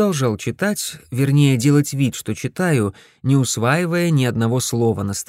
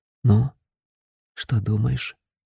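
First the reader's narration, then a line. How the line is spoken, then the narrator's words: Whisper. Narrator (Russian): прошептал я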